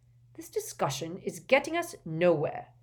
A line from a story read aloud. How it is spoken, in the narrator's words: said Ogden firmly